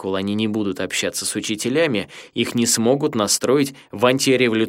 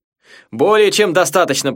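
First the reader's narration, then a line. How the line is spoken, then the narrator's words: Shouting. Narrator (Russian): прокричал Масугаки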